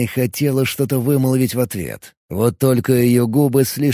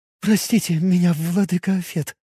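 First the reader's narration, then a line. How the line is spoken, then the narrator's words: Girl's trembling voice. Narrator (Russian): дрожащим голосом произнесла девушка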